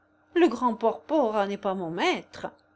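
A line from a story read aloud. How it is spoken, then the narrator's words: Playful tone hiding rage. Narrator (French): répondit Anzoletto d'un ton badin qui dissimulait sa rage intérieure aussi bien que possible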